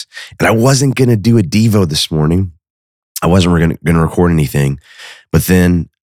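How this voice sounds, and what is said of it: Hoarse voice from a cold. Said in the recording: “I have a bit of a cold today. All right, I'm losing my voice,”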